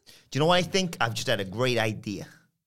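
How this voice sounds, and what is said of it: Put-on accent. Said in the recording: “I thought there was going to be no goddamn accent.”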